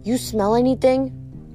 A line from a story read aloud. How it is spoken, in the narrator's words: I murmured to Grover